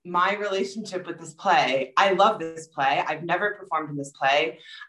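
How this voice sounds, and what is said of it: New York accent. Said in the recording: “my New York accent, maybe it makes Shakespeare interesting in its own special way”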